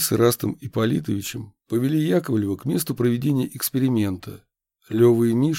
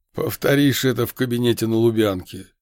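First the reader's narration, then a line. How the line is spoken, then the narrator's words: Cheerful laugh. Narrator (Russian): весело рассмеялся Яковлев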